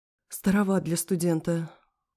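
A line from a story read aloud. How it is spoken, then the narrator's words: Breathless exhale. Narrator (Russian): выдохнула я, когда дар речи ко мне вернулся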